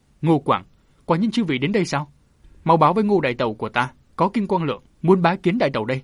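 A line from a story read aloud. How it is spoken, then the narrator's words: Loud voice. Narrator (Vietnamese): hắn lớn tiếng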